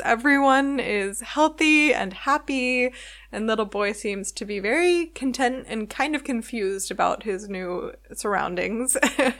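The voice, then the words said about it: Smiling, giggly happy voice. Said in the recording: “stupid grins you can probably hear in my voice and lots of giggling”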